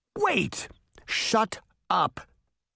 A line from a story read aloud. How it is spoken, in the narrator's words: Bunny snapped